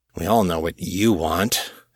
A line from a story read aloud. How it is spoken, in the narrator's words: Sully muttered